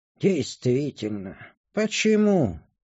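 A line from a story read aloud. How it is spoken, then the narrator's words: Old elf, heavy sigh. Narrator (Russian): тяжело вздохнул старый эльф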